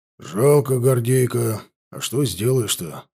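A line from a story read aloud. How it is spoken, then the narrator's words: Sigh. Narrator (Russian): вздохнул унтер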